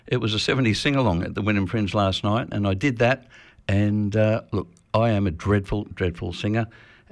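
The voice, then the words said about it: Slightly husky voice. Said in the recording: “my voice is a little bit husky”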